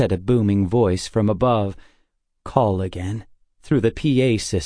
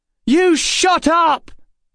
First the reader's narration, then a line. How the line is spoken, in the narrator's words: Emma shouted